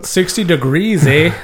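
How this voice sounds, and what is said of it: Put-on Canadian accent. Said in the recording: “That's my best Canadian accent.”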